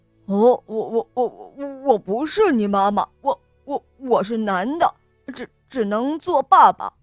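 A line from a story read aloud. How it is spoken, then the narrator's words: Frightened stammering. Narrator (Chinese): 狐狸也吓呆了，结结巴巴地说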